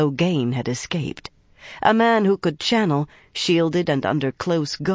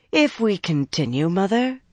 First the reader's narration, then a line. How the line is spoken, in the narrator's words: Shiryam said coolly